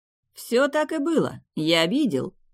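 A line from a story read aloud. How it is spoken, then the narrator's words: Laughing. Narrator (Russian): рассмеялась лжея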